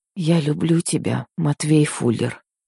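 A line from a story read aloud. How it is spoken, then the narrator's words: Very soft whisper in ear. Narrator (Russian): еще тише прошептала я, осторожно склонившись к самому уху мужчины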